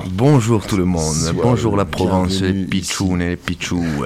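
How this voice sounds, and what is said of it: Regional southern French accent. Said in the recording (French): “il a un bel accent”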